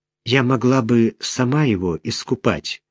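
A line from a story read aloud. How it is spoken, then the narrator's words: Timid offer. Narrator (Russian): робко предложила Мариэлла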